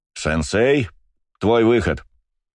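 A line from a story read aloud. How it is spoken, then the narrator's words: Loud. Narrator (Russian): громко сказал я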